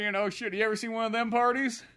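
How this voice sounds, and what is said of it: Arkansas twang impression. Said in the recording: “He started going like Bill Clinton ... this Arkansas twang”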